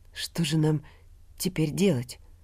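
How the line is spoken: Trembling question. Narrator (Russian): дрогнувшим голосом спросил Аркадий Матвеевич

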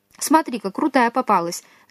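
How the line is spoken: Thoughtful. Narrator (Russian): задумчиво произнес

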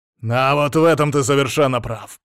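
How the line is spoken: Growled. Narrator (Russian): прорычал Шейн

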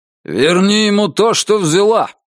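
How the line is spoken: Barked into ear. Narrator (Russian): рявкнул он ей в ухо

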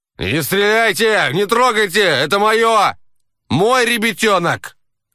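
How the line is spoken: Shouting. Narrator (Russian): Закричал он

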